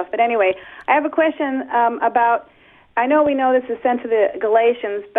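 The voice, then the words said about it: Slightly raspy voice. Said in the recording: “my voice is a little raspy,... so I might not sound like myself”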